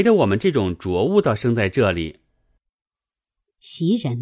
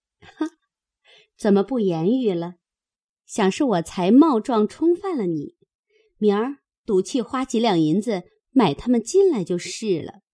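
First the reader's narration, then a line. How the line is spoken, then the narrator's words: Laughing. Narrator (Chinese): 袭人笑道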